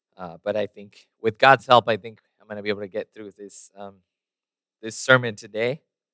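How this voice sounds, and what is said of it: Strained voice, partly lost. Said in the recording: “I feel like I'm losing my voice a little bit, so pardon my just my different voice today.”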